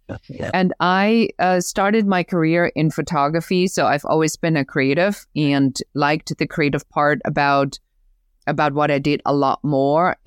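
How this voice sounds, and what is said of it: German accent. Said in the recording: “I'm originally from Germany. You may even hear still the accent”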